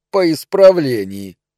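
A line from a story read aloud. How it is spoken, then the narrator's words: Contemptuous snort. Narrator (Russian): презрительно хмыкнул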